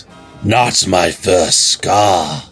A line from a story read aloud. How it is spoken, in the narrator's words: Heart Eater said gruffly